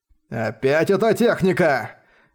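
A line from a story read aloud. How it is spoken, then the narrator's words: Furious hiss. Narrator (Russian): яростно прошипел патриарх Хуянь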